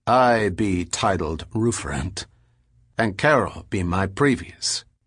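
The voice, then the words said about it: Thick rustic accent, throaty rolled R's. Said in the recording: “His accent became noticeably more Hamish. His R's rolled throatily.”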